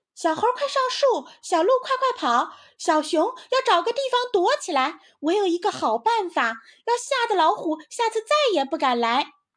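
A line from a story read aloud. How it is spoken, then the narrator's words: Shouting. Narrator (Chinese): 于是它就大喊起来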